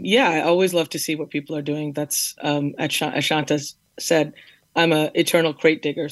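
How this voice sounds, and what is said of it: Slightly hoarse voice. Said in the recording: “Pardon my voice. It's a little hoarse.”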